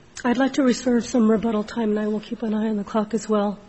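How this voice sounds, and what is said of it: Weak voice, sick with cold. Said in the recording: “I'm battling a cold, so my voice isn't all here.”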